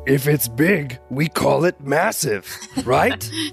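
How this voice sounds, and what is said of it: Grover-like monster voice. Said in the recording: “Was that Grover? Was that your Grover voice? ... my embolism monster voice.”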